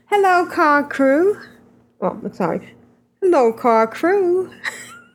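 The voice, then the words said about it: Imitates another person's voice. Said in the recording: “my Ren accent”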